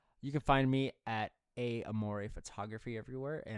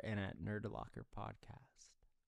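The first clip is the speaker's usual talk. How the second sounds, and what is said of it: Whispered. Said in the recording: “Why'd you whisper that? ... don't whisper it.”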